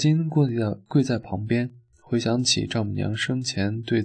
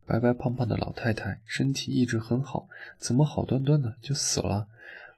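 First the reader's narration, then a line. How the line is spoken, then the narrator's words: Quiet muttering. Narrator (Chinese): 有人小声嘀咕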